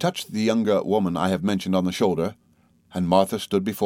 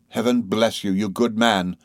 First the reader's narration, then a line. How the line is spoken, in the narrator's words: cried I